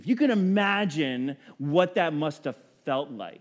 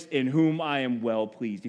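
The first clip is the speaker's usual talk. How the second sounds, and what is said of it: Deep, powerful voice. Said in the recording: “Deep voice, powerful voice”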